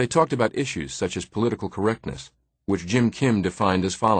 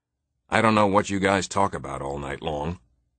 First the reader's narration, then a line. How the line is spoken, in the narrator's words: Tom would in the mornings growl at them